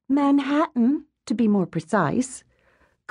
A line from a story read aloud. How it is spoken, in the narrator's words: goodness clarified, and ended with a little sigh, indicating that she, too, had missed visiting Earth